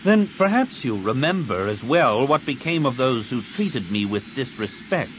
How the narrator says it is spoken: Card said icily

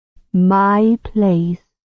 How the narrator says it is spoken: she said, slowly, the words dragging

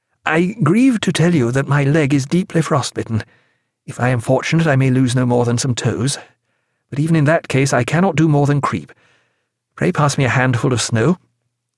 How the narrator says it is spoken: he said hesitantly

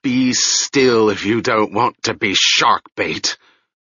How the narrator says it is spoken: the man with the collar, who seemed to be everywhere on the ship, was bending above the hold, hissing

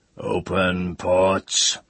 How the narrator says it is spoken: the master's roar

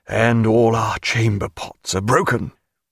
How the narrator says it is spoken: Barclay said in a lugubrious tone

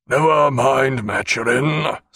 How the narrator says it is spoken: said Jack, suddenly speaking in a deep, hoarse voice out of some partially lucid interval

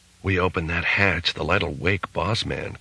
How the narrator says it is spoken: Case whispered

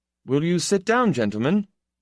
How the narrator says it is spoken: Itálev said in a clear, harsh voice

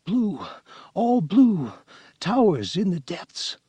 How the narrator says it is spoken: said in a whistling whisper

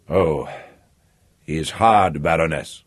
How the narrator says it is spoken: Emmanuel said, still speaking grimly

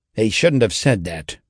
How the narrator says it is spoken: remarked testily, to no one in particular

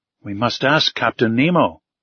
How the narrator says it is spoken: said Conseil

